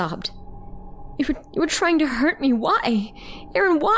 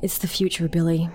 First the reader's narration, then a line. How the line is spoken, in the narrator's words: he sighed, as if what he was saying truly pained him